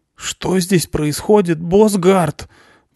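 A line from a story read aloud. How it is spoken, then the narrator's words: Shocked hoarse croak. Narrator (Russian): прохрипел шокированный парень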